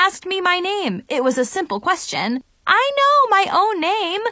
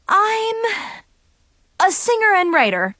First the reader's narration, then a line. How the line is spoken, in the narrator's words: I blurted out